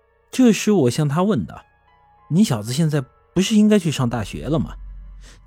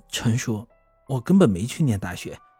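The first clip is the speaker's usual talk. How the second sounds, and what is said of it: Quiet, hushed speaking. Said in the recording (Chinese): “他低下了头， 小声的对我说道”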